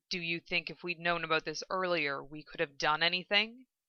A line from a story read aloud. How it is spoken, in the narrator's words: Roy asked quietly, torn